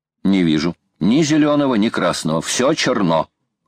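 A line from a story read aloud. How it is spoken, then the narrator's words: Plain. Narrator (Russian): ответил Паганель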